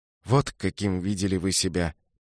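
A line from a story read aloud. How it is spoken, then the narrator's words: Soft repetition. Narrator (Russian): повторил Пабло мягко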